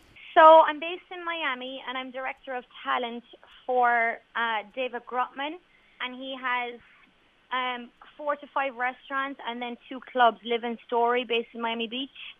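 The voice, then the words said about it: Strong Irish Cork accent. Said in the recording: “I was amazed by your accent. I was genuinely thought that you were going to be full blown American ... I think the Cork accent is just so strong that it's actually hard to knock ... It is quite strong in fairness.”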